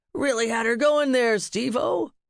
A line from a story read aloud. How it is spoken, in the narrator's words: Lucius howled